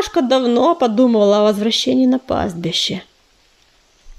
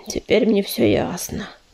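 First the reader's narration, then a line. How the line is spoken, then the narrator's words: Sad sigh. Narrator (Russian): печально вздохнул огнезвезд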